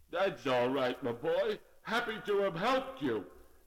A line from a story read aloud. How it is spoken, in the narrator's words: Irving answered in a very frozen voice